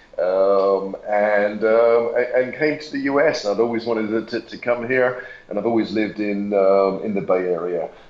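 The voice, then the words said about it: Slight English accent. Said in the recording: “I can tell you got a little bit of an accent ... my accent's from England a long time ago”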